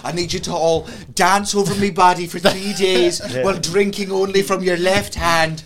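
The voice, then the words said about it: Put-on Irish accent. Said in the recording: “This cunt's been learning an Irish accent, right? ... He's been pulling it out left, right, and centre the last month.”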